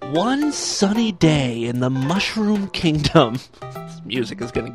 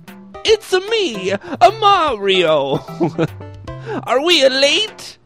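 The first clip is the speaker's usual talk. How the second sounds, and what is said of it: Poor put-on Italian accent. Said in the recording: “My Italian accent stinks”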